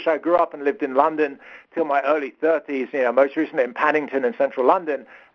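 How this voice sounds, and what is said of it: British accent. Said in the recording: “you can probably hear from my accent, I'm British.”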